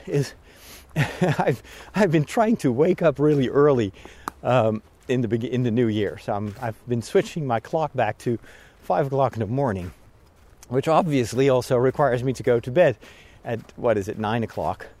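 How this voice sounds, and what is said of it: Slightly out of breath. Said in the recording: “we're going uphill, so I may be a little bit more out of breath ... I'm also a bit more out of breath”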